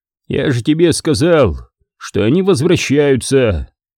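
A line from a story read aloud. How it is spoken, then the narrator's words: Calm. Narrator (Russian): сказал спокойно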